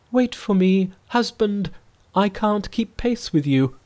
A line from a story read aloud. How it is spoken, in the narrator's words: The princess cried